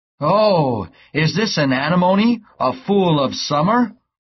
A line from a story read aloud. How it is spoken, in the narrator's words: a man was reading the book and shouted